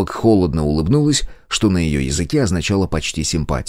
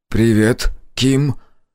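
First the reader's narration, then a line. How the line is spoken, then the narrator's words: Awkward, forced out. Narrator (Russian): Неловко выдавил помощник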